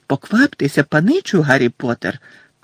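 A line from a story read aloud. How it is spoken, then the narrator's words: Squeaking. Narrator (Ukrainian): пищав Добі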